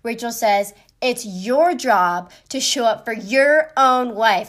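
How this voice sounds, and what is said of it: Raised, louder voice. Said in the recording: “raising my voice”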